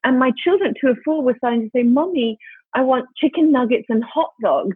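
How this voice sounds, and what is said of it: British accent. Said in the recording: “despite our fellow British accents,”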